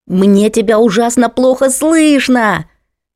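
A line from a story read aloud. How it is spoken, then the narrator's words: Even louder yell. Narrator (Russian): Заорала Алла еще громче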